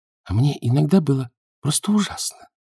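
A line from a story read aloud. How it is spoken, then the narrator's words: Quiet speech. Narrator (Russian): тихо говорила Муравлева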